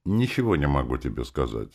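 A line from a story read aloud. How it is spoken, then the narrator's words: Dry remark. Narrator (Russian): сухо заметил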